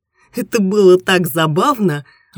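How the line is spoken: Laughing. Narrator (Russian): рассмеялась Ольга

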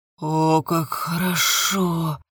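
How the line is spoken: Moaning. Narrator (Russian): застонал

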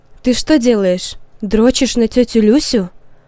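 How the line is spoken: Smiling yet stern mother. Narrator (Russian): Улыбаясь, но в то же время строго спросила Санькова мама

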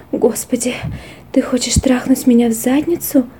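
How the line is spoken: Mutter. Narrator (Russian): пробормотала она

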